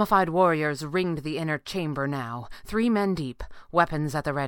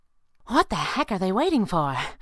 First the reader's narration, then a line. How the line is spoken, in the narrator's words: the flying squirrel said breathlessly